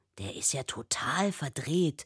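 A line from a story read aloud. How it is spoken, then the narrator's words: Whispering from behind. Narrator (German): flüstert Till hinter ihr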